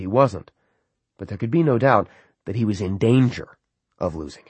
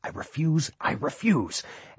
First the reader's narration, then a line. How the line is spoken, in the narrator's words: muttering this under his breath